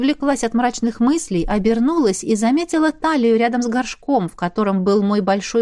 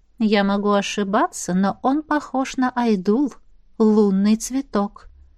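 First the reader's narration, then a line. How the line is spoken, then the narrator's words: Quiet. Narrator (Russian): тихо сказала Аиса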